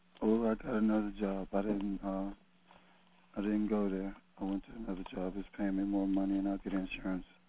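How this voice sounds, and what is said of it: Hoarse, fading voice like a cold. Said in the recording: “You sound like you got a cold. ... I'm losing my voice. ... Probably catching a cold, but my voice is going with it.”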